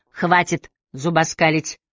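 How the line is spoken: Stern sharp shout. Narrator (Russian): сурово прикрикнул Аллейн

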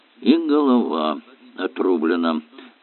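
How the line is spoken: Muttering. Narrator (Russian): пробормотал, наконец, Эллери

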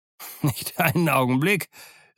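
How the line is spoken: Calling out, merrily laughing. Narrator (German): rief der Doktor lustig lachend

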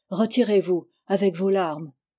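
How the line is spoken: Exclaimed. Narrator (French): s'écria Dario

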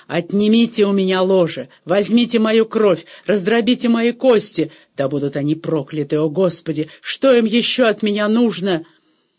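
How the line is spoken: Furious startling shout. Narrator (Russian): в ярости он закричал над духом Шумана так, что доктор сильно вздрогнул

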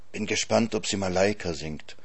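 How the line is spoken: Whispered. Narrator (German): flüstert Elsa Greicht mir zu

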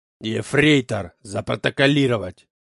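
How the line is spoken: Icy command. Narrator (Russian): ледяным голосом приказал Клаус Мария

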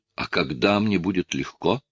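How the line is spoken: Strained forced words. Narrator (Russian): выдавил Шарп

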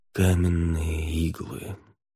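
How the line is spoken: Muttering. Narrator (Russian): пробормотал Хель

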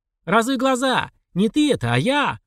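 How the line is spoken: Loud confirmation. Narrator (Russian): подтвердил он громко

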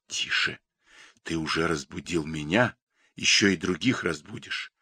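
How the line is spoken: Whisper in ear. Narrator (Russian): шептал он над моим ухом

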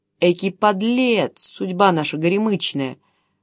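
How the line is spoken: Grumbling. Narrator (Russian): ворчал Камберус

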